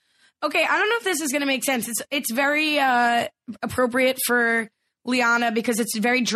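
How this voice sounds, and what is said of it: Usual voice. Nothing is said of it.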